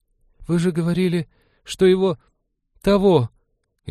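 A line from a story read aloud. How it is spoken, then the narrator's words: Frightened whisper. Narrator (Russian): испуганно прошептала Джилл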